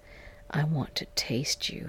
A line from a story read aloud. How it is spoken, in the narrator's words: he whispered